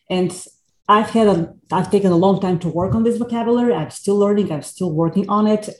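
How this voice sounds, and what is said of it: Foreign accent. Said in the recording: “obviously I'm a foreigner. You can hear my accent from the other end of the earth.”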